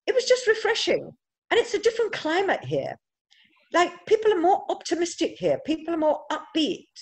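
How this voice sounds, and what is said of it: English accent. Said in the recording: “I've got an English accent, which makes me stand out a little bit.”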